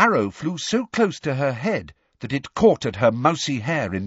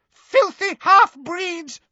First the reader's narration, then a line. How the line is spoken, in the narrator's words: she screamed